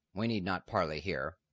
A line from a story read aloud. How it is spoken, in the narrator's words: the knight said coldly